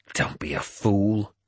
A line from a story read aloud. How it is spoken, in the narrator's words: I snarled